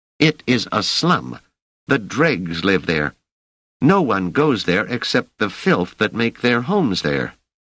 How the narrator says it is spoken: Cecilia said sharply

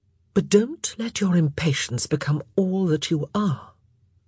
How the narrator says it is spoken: said softly

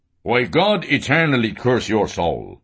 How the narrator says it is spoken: Ben Dollard growled furiously

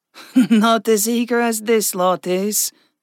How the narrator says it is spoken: Vexa chuckled

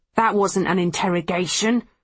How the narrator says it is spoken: Farris growls

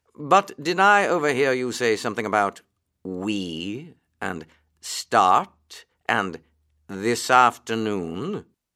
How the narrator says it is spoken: said the Rat slowly as he chewed his straw

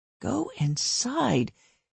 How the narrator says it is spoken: he muttered

